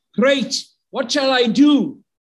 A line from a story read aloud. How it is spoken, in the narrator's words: The man was really happy now and shouted out